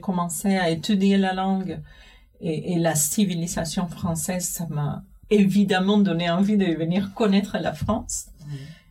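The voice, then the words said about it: Non-native French accent. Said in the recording (French): “bravo pour ton français parce qu'il est excellent... Avec mon accent, toujours”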